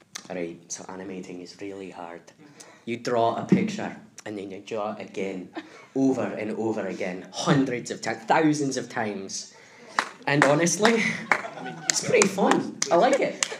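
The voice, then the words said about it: Put-on Scottish accent. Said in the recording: “I like to do Scottish impressions.”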